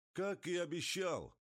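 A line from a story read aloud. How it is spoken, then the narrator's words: Shout. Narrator (Russian): крикнул Рауль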